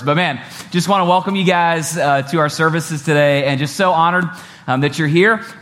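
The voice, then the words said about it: Sick, under-the-weather voice. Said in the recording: “I'm a little under the weather today ... my voice sounds sexy”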